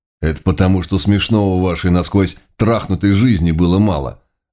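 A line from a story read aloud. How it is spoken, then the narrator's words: Plain. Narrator (Russian): ответил Найтрок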